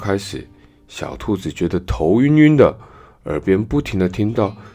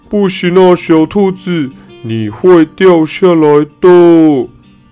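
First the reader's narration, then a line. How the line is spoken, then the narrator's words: Parents shouting loudly. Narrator (Chinese): 兔妈妈和兔爸爸站在树下，大声喊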